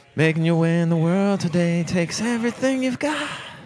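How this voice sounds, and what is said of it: Imitates a man singing a theme song. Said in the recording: “do my impression of the man singing the Cheers theme song”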